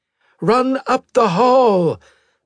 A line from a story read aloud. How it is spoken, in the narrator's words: the android shouted